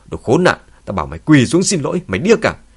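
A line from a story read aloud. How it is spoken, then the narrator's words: Angry shout. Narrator (Vietnamese): Tôn Húc giận dữ hét lên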